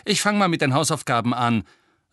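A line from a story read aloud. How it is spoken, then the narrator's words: Angry voice. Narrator (German): sagte Ron zornig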